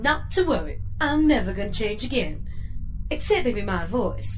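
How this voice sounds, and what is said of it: Sultry Southern belle accent. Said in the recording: “You like my accent this week? I'm a regular Southern belle. ... Your voice is sultry enough to melt the rust off a radiator.”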